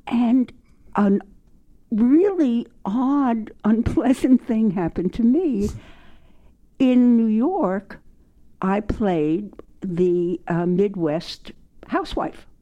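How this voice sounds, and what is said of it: New York accent. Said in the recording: “I do have somewhat of a New York accent”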